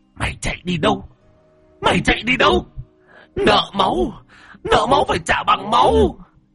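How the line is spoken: Shrill furious hiss. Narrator (Vietnamese): Bà ngoại ... rít lên

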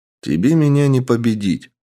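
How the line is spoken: Calm. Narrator (Russian): спокойно произнес я

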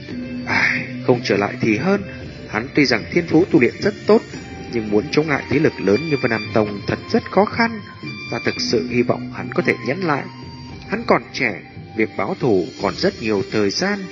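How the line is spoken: Muttering. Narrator (Vietnamese): Hải Ba Đông lẩm bẩm nói

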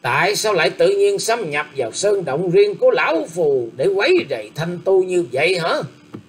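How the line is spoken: Loud, harsh. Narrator (Vietnamese): Lữ Tùng Lâm gằn giọng to tiếng nói rằng

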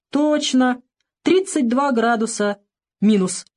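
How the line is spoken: Serious, then laughing. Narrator (Russian): Серьезно подхватил тот и рассмеялся

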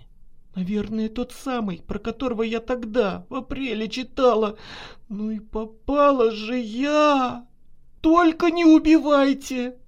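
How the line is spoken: Tearful pleading. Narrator (Russian): Взмолилась Наташа, заливаясь слезами

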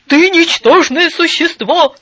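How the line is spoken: Angry shout downward. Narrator (Russian): закричал он на нее вниз

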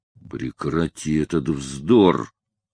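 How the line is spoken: Growl. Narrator (Russian): прорычал Лаусон

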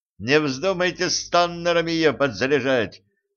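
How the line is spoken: Shout after them. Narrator (Russian): крикнул им вслед Джим

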